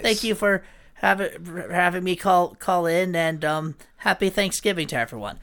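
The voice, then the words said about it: Imitates another person's voice. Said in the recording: “That was me doing an impression of her ... I, at best, kind of got her pauses down a little bit at the beginning”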